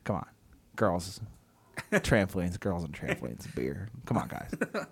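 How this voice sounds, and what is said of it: Imitates another person's voice. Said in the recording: “great Adam Carolla impression”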